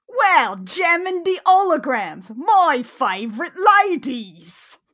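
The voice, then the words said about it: Bad put-on British accent, Sean Harrison. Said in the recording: “I forgot how bad his accent is... I wrote out some of his lines in, like, as much dialect as I could possibly get... accent is, it's even worse in the show... Sean Harrison, the British teen idol”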